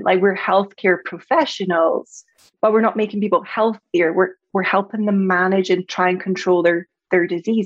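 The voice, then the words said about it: Scottish accent. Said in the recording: “you probably heard from my accent, I'm from Scotland”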